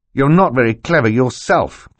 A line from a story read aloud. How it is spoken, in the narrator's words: Klaus said fiercely